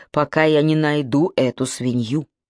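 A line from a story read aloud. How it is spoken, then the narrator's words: Through gritted teeth. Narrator (Russian): ответил Мок сквозь зубы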